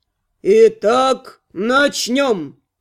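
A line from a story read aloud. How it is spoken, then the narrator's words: Solemn proclamation. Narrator (Russian): торжественно возгласил местный архимаг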